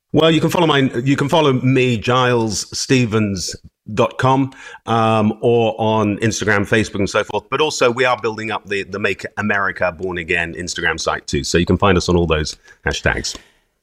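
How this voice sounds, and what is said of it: Posh accent, sounds like James Bond. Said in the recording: “I just love the accent ... He does sound like James Bond ... He's posh”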